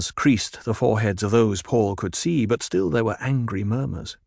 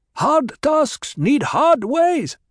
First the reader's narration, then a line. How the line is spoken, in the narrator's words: someone shouted